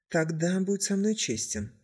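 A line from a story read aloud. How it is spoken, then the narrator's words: Quiet reply. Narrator (Russian): также тихо ответил Козицкий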